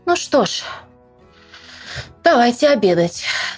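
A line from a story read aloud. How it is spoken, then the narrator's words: Sighing mother. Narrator (Russian): вздохнула мама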